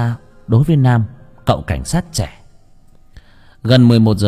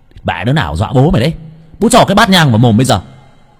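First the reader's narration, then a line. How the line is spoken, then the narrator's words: Shouting. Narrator (Vietnamese): Nam hét lên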